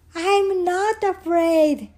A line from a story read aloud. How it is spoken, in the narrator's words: he shouted